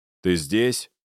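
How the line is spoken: Very stern question. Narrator (Russian): спросил максимально строго

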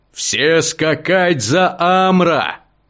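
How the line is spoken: Shouted. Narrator (Russian): крикнул я остальным

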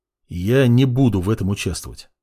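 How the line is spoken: Calm young man. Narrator (Russian): спокойно произнес парень

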